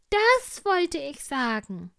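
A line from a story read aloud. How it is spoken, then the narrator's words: Small tiger calling. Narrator (German): rief der kleine Tiger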